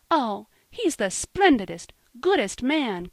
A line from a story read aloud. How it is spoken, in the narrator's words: cried Polly